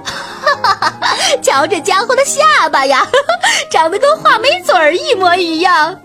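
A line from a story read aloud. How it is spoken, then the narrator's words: Loud laughing voice. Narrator (Chinese): 他一边放声大笑，一边高声说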